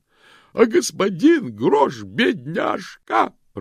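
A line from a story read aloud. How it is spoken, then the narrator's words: Sobbing woman. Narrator (Russian): прорыдала женщина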